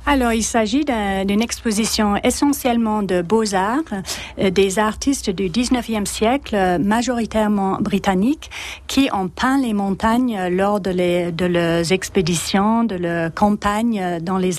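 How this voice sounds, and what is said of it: Slight English accent in French. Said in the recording (French): “Avec un petit accent anglais”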